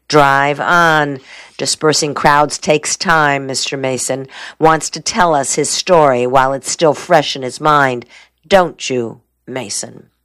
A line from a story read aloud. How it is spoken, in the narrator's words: The lawyer laughed